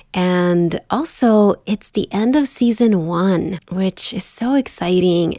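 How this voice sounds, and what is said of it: Voice strained from a cold. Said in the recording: “I'm recovering from a bad cold, so I apologize if my voice sounds a little strange”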